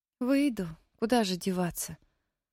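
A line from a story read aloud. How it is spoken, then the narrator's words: Glum agreement. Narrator (Russian): уныло согласилась Мэри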